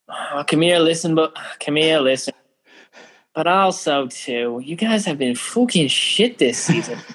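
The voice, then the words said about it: Put-on Irish accent. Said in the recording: “Can you say it in an Irish accent? ... it's better than the South Carolina accent.”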